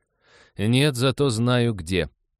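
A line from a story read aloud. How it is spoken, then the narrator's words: Snorting. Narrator (Russian): Лиза хмыкнула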